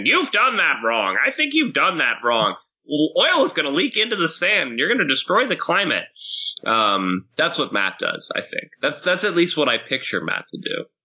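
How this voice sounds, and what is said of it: Mocking impression of engineer's voice. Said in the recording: “your impersonation of my engineering voice”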